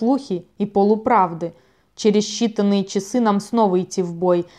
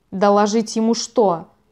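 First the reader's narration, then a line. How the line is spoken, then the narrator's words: Snappish retort. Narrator (Russian): огрызнулся Кровавый Вой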